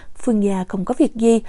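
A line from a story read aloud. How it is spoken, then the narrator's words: Soft. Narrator (Vietnamese): Triệu Sơ khẽ nói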